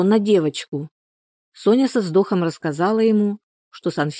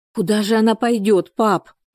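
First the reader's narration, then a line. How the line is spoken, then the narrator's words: Exclaiming. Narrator (Russian): воскликнула Соня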